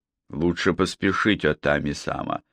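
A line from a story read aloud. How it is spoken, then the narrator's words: Plain. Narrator (Russian): сказал он Хираге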